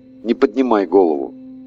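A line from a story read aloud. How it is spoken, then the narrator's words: Whispered. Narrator (Russian): Прошептал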